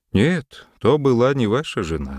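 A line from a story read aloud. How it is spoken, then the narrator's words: Sad reply. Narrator (Russian): ответил грустно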